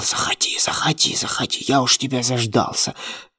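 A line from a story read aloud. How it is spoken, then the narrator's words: Whisper. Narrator (Russian): прошептал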